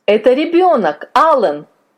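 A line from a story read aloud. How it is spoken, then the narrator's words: Exclamation. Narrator (Russian): воскликнул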